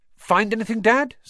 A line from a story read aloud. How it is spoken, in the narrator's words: said Fred eagerly